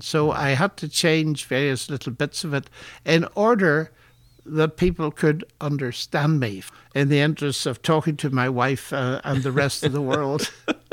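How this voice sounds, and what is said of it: Northern Irish accent, slightly modified. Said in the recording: “It's a fairly standard Northern Irish accent, except it's been modified by living ever since I was 18 outside Northern Ireland”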